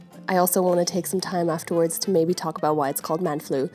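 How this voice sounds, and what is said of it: Ill, flu-affected voice. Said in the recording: “As you can maybe tell from my voice, I've been really ill. I've had the man flu.”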